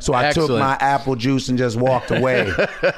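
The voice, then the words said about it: Paul Mooney impression. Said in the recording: “That's an excellent impression. You are really good at impressions. ... you're Paul Mooney, you sound like him too”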